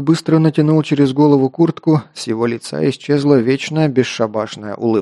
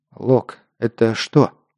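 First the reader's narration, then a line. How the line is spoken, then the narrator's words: Quiet question. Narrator (Russian): тихо спросил я оборотня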